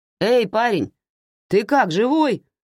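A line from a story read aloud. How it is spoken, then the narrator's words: Driver shouting. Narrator (Russian): крикнул водитель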